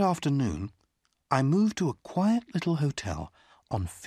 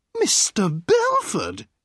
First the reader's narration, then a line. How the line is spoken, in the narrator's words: a sweet voice cried